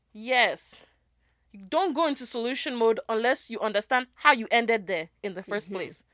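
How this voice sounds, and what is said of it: Sounds like a Kenyan accent. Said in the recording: “you sound like a Kenyan?”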